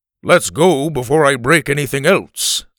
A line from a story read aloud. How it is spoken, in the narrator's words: Alf said in his booming voice